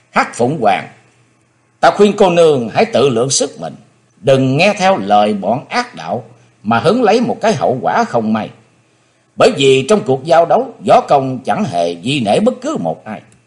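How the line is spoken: Pensive shout. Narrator (Vietnamese): Chí Tôn trầm nghĩ quát

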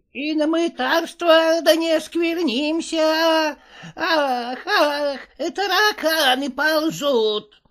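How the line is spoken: Squeaking. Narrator (Russian): пищал Никита

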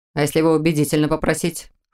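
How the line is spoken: Wry snort. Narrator (Russian): хмыкнул Мор

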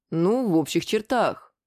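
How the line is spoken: Slightly confused reply. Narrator (Russian): немного растерянно ответил

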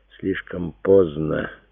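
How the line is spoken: Soft, bitter objection. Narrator (Russian): мягко возразил Симеон, но в его голосе звучала горечь

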